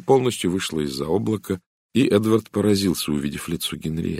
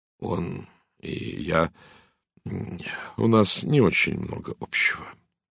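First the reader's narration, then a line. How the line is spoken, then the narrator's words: Quiet. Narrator (Russian): тихо сказал Эдвард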